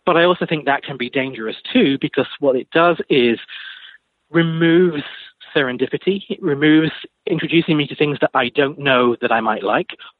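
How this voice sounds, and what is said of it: British accent. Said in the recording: “You probably guess from my accent, I'm not originally from the States, I'm from the UK.”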